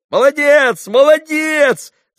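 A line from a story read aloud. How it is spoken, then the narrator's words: Boys shouting together. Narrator (Russian): закричали все мальчики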